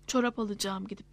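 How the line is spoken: Plain. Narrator (Turkish): dedi Nilüfer

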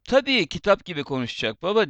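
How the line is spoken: Plain. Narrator (Turkish): dedi

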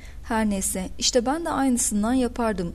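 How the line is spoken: Plain. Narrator (Turkish): dedi Charles

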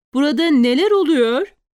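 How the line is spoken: Shouting over the din. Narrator (Turkish): bağırmak zorunda kalmıştı ama yine de sesi etraftaki hengameyi bastırmaya yetmedi

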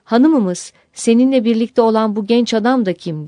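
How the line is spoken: Group crying out. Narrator (Turkish): diye haykırmışlar

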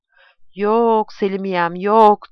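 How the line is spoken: Sobbing. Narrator (Turkish): diye hıçkırdı

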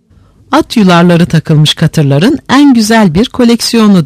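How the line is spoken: Plain. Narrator (Turkish): dedi

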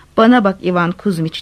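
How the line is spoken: Plain. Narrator (Turkish): dedi

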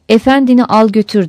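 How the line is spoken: Plain. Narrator (Turkish): dedi

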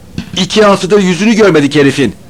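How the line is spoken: Shouting. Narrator (Turkish): diye bağırdı

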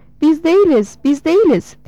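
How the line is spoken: Shouted. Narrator (Turkish): diye bağırdı

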